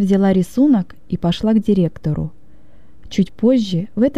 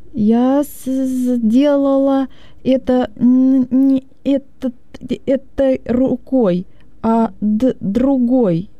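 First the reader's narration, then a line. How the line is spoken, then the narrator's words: Stammering. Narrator (Russian): заикаясь, проговорила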